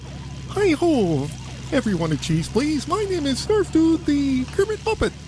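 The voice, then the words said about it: Kermit the Frog voice impression. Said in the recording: “Should I do my Kermit voice? ... It's not that great, but it's not that bad.”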